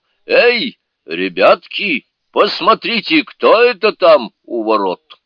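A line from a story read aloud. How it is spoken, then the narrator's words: Spirit shouting. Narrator (Russian): дух, который все знал, все видел и все слышал, крикнул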